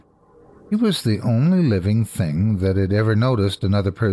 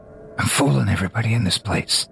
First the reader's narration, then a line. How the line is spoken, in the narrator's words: Drunkish whispers